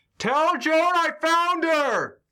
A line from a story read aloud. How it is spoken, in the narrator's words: I just shout